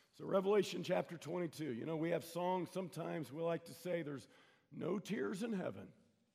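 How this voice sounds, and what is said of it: Strained, fading voice. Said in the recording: “I'm about to lose my voice”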